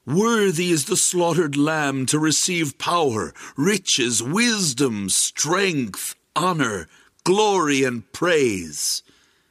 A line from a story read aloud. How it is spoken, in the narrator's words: they shouted out